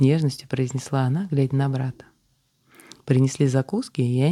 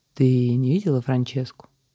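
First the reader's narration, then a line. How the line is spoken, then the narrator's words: Utterly indifferent tone. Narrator (Russian): произнес собеседник самым безразличным тоном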